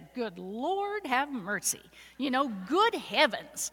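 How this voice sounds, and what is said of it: Missouri accent. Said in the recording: “I actually say phrases sometimes with a Missouri accent.”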